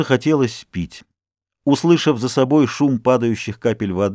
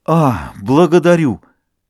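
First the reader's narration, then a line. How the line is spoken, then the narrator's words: Muttered, joyful. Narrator (Russian): Его сердце радостно забилось, он пробормотал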